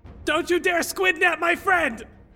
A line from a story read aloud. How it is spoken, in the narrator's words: scream